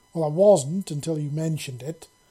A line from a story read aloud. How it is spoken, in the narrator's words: she exclaimed